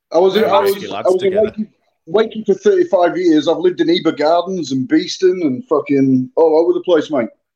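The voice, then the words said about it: Yorkshire accent mixed with Australian. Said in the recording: “picked the accent up ... there was a bit of a mix in there”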